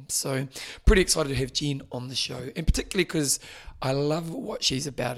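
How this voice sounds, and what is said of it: Hoarse, fading voice. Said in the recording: “As you can see, I'm losing my voice”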